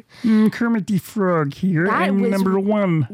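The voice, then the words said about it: Good Muppet character voice impression. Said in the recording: “Stop doing your Muppet impression. ... That was really good. ... That is really good.”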